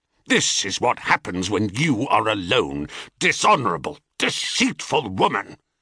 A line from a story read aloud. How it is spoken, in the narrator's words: he thundered